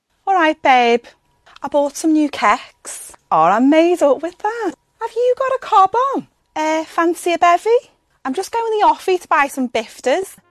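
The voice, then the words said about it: Sing-songy Liverpool accent. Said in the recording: “this one is from Liverpool... This is a happy accent. It sounds really like sing-songy. It's very, it goes up and down, up and down... Liverpool accent is quite well known for being quite sing-songy... Like a fun accent.”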